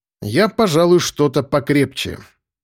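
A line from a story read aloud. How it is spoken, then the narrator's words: Loud, not whispering. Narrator (Russian): проговорил я уже громко, не шепча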